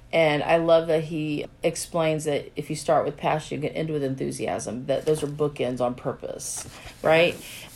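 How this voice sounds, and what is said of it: Froggy, hoarse voice. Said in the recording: “coming off of laryngitis, so my voice sounds a little froggy today.”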